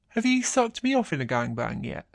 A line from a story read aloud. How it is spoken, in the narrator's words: grinning as he says